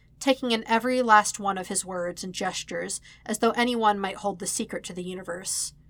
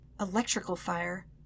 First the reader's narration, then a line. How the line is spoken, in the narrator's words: he whispered the words like a curse